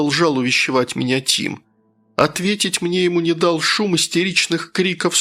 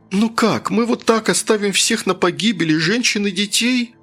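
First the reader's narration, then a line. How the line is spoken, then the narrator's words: Indignant, tearful question. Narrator (Russian): с возмущением спросил Тим, переставая рыдать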